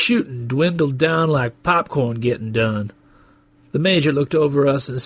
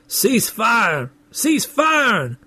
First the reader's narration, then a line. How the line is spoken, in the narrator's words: The sergeant was looking bored, shouting